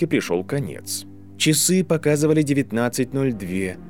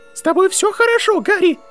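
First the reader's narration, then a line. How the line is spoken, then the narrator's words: Squeaky voice. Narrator (Russian): пропищал декан Коктеврана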